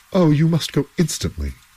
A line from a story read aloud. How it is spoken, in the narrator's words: cried the two men